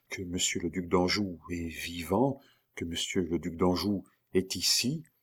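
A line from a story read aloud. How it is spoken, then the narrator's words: Stammered. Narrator (French): balbutia Diane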